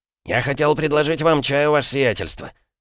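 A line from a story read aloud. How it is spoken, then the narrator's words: Timid babbling. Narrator (Russian): пролепетал Захар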